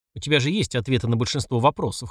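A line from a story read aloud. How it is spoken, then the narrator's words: Smirking snort. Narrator (Russian): хмыкнул я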